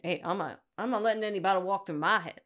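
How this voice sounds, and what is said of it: Put-on Brooklyn accent drifting Southern. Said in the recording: “I'm giving you my Brooklyn accent ... Well, now I got Southern.”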